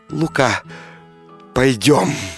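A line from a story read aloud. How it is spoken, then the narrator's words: Tender soft whisper. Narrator (Russian): купчиха мгновенно вспыхнула огнем и прошептала нежно, тихо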